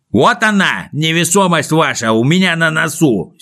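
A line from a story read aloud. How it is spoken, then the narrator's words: Angry reply. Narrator (Russian): сердито ответил Пончик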